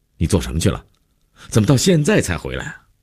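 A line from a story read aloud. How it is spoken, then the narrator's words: Angry, abrupt question. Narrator (Chinese): 姐夫一脸温怒，劈头就问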